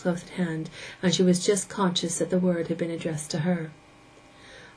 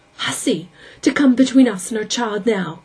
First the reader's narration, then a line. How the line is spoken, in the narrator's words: cried Rhoda